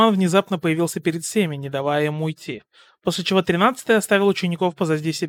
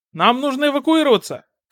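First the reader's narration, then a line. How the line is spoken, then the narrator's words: Urgent shout. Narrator (Russian): крикнул Тенни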